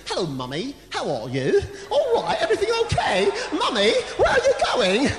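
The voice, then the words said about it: Put-on British accent. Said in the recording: “speak like a British person”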